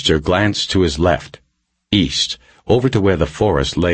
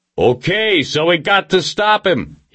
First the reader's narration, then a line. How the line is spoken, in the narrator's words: he yelled